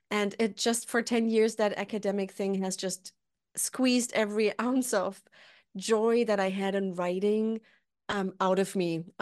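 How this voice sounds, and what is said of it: German accent. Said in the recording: “Maybe you can hear from my accent, I'm German”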